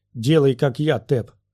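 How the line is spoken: Shouted. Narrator (Russian): прокричал Чолли

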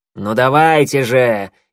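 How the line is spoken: Impatient snort. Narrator (Russian): нетерпеливо фыркнул

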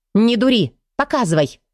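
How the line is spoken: Barked. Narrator (Russian): рявкнула я

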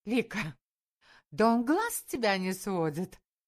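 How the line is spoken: Laughing. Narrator (Russian): рассмеялась Таня

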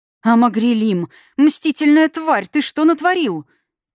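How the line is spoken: Frightened shriek. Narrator (Russian): Испуганно взвизгнула Анхелла

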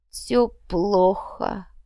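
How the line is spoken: Young man groaning. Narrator (Russian): простонал приткнувшийся в уголке паренек

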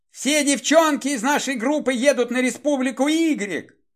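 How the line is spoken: Tearful wailing. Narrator (Russian): вопила Татьяна Баринова, размазывая по лицу слезы

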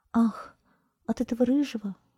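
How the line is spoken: Sigh. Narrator (Russian): вздохнула она

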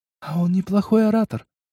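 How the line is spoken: Whisper. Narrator (Russian): шепнула Аида

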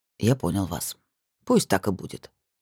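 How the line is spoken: Quiet speech. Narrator (Russian): негромко сказал Артём

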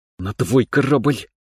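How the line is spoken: Muttered through teeth. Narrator (Russian): процедила Квин

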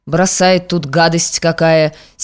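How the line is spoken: Angry grumble. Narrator (Russian): сердцем проворчал

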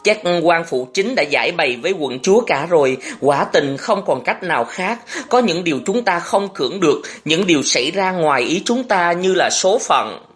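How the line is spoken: Trembling, timid, worried question. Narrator (Vietnamese): Bằng một giọng run run vì lo ngại và thương xót, Lãng rụt rè hỏi Thọ Hương

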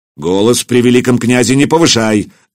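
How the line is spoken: Barked. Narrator (Russian): рявкнул Претич

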